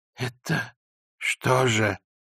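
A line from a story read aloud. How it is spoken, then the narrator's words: Old man, dejected voice. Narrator (Russian): спросил старик упавшим голосом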